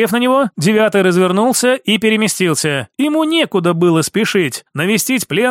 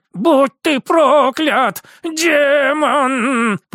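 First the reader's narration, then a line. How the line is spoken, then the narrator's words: Old man, breathless, through teeth. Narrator (Russian): процедил старик, тяжело дыша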